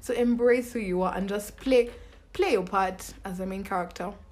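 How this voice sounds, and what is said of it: Noticeable accent. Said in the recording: “This shit accent keeps catching up with me.”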